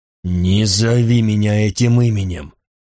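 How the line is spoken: Angry hoarse rasp. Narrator (Russian): злобно прохрипел сова

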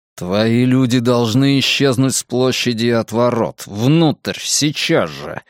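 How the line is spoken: Breathed into ear. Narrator (Russian): выдохнул он на ухо ворону

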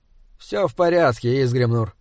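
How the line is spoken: Tired. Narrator (Russian): устало сказал Эулер

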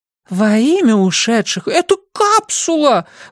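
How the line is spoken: Excited squeak. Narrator (Russian): возбужденно пискнула тетка

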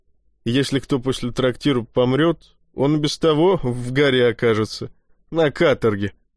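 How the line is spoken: Giggling. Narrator (Russian): хихикнул второй брат Отто

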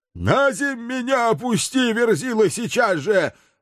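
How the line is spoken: Yelling while struggling. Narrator (Russian): вырываясь, орал Туром

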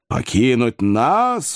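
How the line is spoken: Exclaimed, underground spirit. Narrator (Russian): воскликнул подземный дух

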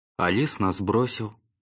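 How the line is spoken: Plain. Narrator (Russian): сказал Раф

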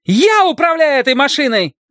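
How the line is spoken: Shouted. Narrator (Russian): закричала она

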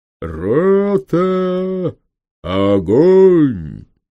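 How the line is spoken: Deep drawn-out shout. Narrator (Russian): густым голосом, очень протяжно, так показалось Самсону, закричал капитан

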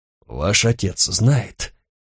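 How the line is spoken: Hoarse question. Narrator (Russian): хрипло спросил бургомистр

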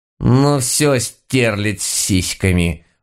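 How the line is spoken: Growl. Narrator (Russian): прорычала баба-яга

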